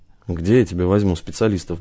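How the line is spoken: Gruff mutter. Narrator (Russian): буркнул Гаспарян

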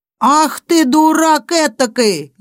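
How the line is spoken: Old woman shouting. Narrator (Russian): закричала на него старуха

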